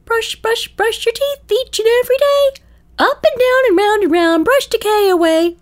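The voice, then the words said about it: Mickey Mouse impression, singing. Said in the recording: “Mickey Mouse singing ... I can't do an impersonation, but I will try.”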